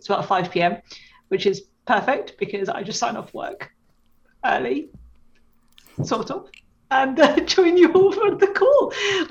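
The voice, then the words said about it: English accent. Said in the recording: “it's a little bit later in England, as you can probably tell from my accent.”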